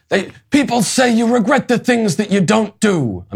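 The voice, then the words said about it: Slight Al Pacino impression. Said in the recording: “I'm doing a slight Pacino accent because he played him in the movie.”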